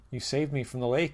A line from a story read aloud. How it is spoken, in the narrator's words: I said